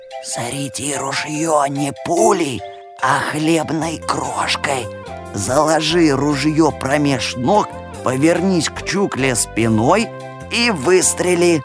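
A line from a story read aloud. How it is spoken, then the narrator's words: Old man whispering. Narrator (Russian): белобородый старик шепнул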